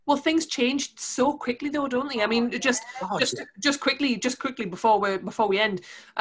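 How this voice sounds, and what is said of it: Geordie accent. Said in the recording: “given my Geordie accent”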